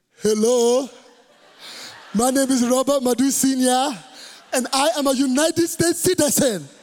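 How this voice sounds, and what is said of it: Imitates father's foreign accent. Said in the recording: “No citizenship was gonna change my dad's accent ... He don't sound like one”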